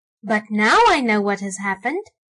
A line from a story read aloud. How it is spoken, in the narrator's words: Archie exclaimed